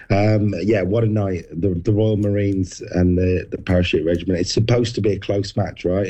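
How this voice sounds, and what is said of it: Hoarse, strained voice. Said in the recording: “losing your voice a little bit ... I definitely lost my voice by the end of the night”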